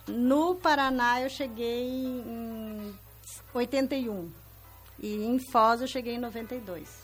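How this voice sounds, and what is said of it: Gaúcho Brazilian Portuguese accent. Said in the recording (Portuguese): “Eu sou gaúcha ... mais uma gaúcha aqui no estúdio ... Que tal esse sotaque?”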